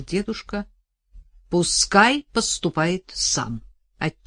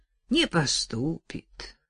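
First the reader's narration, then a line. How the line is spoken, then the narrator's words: Old man sighing. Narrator (Russian): вздохнул дед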